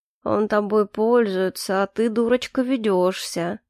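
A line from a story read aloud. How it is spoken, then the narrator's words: Strange monotone voice. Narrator (Russian): продолжал Изирес каким-то странным монотонным голосом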